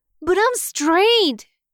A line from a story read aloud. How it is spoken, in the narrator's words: Wayne blurts out